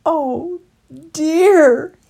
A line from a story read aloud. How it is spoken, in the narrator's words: he groaned